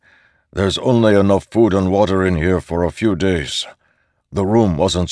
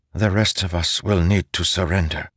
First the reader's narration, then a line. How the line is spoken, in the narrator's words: Nora said softly